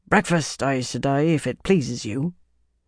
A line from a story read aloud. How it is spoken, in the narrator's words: a man called cheerily in a Mirandian accent